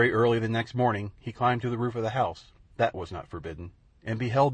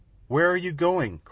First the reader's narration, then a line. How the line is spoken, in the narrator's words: cried Wee Willie Winky